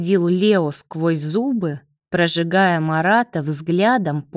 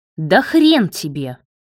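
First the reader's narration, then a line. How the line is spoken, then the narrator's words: Barking. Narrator (Russian): рявкнул тот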